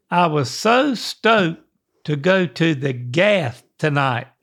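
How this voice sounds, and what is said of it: Attempted Australian accent. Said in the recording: “I'm going to say a sentence ... with my best Australian accent ... Is this your Aussie accent?”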